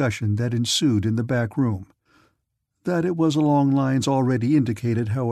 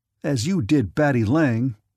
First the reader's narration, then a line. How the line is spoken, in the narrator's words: snapped Nick, so sharply